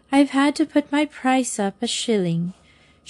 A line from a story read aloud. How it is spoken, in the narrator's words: she says sadly